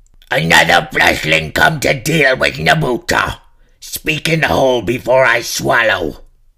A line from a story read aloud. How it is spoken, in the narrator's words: A voice bellowed